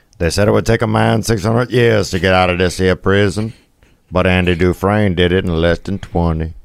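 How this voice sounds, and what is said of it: Imitates another person's voice. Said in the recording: “my Morgan Freeman impersonation”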